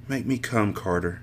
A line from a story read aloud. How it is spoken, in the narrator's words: she whispered